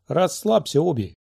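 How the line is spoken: Girl's snort. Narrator (Russian): хмыкнула девочка

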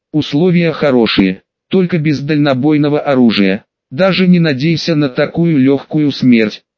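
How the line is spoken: Mocking snort. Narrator (Russian): хмыкнул Мормонт

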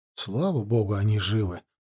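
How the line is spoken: Muttered. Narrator (Russian): пробормотал Шторкин

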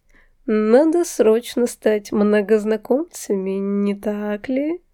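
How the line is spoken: Purring voice. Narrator (Russian): мурлыкающим голосом произнес Марк

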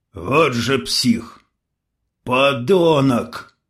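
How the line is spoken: Growling. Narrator (Russian): в ответ прорычал Геннадий

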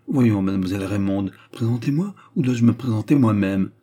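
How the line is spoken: Flustered stammering woman. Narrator (French): Elle s'efforça de surmonter son trouble et se tournant vers Antoine, sans oser le regarder, elle balbutia

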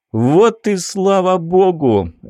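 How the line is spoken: Joyful shout. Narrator (Russian): радостно крикнул Билл

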